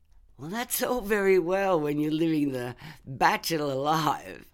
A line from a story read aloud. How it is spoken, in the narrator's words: laughed Mum